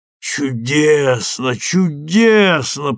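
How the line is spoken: Moaning. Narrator (Russian): простонал мистер Фалик

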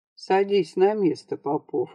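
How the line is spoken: Soft. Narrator (Russian): мягко сказал он

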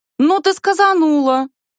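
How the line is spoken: Indignant exclamation. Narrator (Russian): возмущенно восклицает Лара

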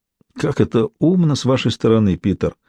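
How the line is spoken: Sighed. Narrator (Russian): вздохнул Генри Пайк

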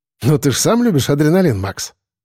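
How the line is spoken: Wry snort. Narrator (Russian): хмыкнул Коля

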